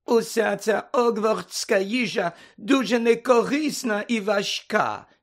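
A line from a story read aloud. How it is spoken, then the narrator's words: Grumpy complaining voice. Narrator (Ukrainian): сказала вона сварливим голосом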